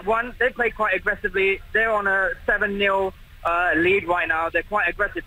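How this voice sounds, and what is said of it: British accent. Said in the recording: “as you can hear from my accent, I'm British”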